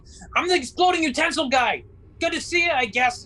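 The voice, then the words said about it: Screaming character line. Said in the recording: “he's screaming”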